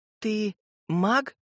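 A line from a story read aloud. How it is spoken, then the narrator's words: Timid question. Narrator (Russian): робко спросила Сойка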